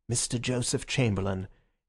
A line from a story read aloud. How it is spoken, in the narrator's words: From the doorway there came a murmur of